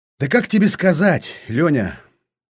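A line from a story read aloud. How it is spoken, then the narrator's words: Thoughtful grunt. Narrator (Russian): задумчиво хмыкнул Старлей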